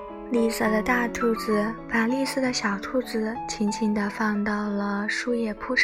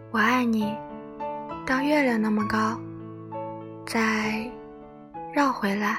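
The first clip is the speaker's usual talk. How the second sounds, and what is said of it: Soft whisper, smiling. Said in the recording (Chinese): “小声地微笑着说”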